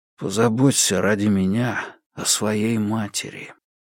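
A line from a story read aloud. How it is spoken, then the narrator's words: Gloomy. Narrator (Russian): жук-носорог мрачно добавляет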